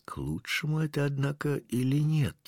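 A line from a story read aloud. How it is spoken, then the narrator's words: Whisper. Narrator (Russian): прошептал кто-то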